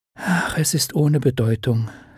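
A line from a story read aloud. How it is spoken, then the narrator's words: Gentle. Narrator (German): sagte sanft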